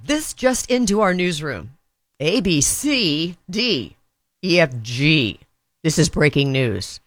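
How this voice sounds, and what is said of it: News anchor impression. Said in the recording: “your impersonation of a news anchor doing the alphabet”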